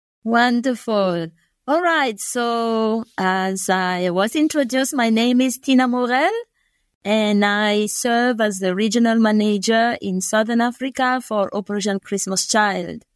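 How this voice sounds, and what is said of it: Non-American English accent. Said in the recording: “Your accent would indicate that you're probably not from South Carolina like I am.”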